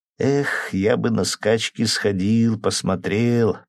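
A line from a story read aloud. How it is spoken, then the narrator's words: Dreamy drawl. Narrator (Russian): протянул Сеня так же мечтательно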